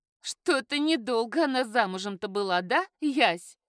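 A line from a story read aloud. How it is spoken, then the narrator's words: Spiteful laughter. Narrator (Russian): Вика зло рассмеялась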